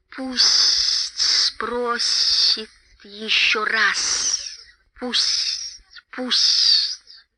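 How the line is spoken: Hissing. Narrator (Russian): прошипел Голлум

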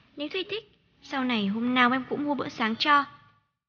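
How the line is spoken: Cheerful laughing. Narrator (Vietnamese): Tôi cười hớn hở

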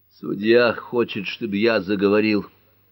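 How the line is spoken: Sudden mutter. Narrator (Russian): внезапно пробурчал он

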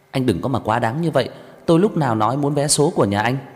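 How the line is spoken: Ashamed, angry. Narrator (Vietnamese): Mặt của Đường Khả Hinh đỏ bừng, cảm thấy xấu hổ, mất hết thể diện, tức giận nói

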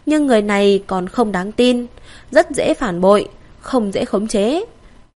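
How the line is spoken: Sighing. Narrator (Vietnamese): thở dài

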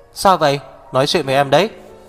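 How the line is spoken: Loud alarmed speech. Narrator (Vietnamese): Hạc Viêm Triệt ngửi thấy mùi máu tươi, lớn tiếng nói

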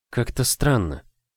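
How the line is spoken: Uncertain mutter. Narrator (Russian): неуверенно пробормотала

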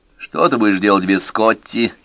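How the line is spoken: Mocking question. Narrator (Russian): спросил он насмешливо

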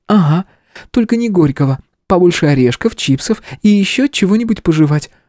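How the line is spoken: Cheerful declaration. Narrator (Russian): весело заявила Стежка

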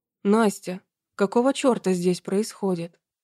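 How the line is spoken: Hoarse sleepy distant voice. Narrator (Russian): Услышала она хриплый сонный голос из номера напротив

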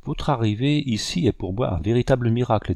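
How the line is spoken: Plain. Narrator (French): dit-elle

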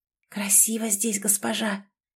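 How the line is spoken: Whisper. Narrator (Russian): прошептала Нелл

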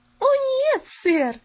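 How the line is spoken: Cheerful laugh. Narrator (Russian): весело засмеялась Поллианна

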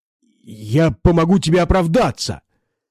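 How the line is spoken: Terrified yelling. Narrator (Russian): завопил Фридли, едва не пуская слюни от ужаса

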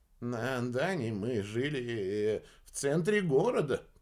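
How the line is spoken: Grumbling. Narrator (Russian): проворчал Мерса

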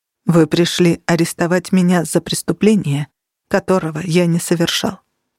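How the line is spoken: Calm. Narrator (Russian): спокойно сказал Минчерес

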